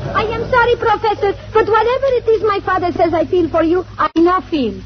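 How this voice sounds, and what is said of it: Speaking in a dialect. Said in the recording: “This girl has a dialect.”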